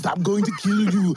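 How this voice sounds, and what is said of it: Austrian accent, Schwarzenegger Terminator impression. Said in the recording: “All the machines will have an Austrian accent. ... the Schwarzenegger version”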